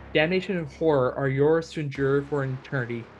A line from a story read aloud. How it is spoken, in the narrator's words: he whispers